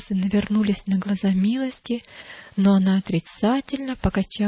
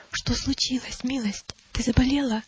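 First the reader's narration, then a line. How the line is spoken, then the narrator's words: Whisper. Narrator (Russian): Христиана шепнула ей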